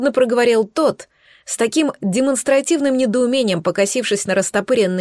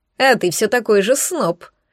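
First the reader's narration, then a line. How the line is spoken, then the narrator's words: Quieter snort. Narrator (Russian): хмыкнул гость уже гораздо тише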